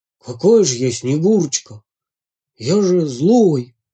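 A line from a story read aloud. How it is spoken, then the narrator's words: Hoarse timid wolf. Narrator (Russian): хрипло и робко сказал волк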